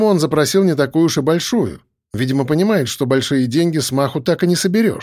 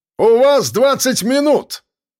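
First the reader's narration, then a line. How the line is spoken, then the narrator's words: Shouting after cursing. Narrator (Russian): выругавшись, выкрикнул Жорич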